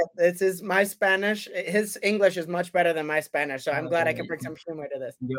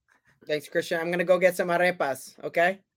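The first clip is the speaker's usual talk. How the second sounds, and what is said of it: English with a put-on Spanish accent. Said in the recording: “when you try the Spanish accent”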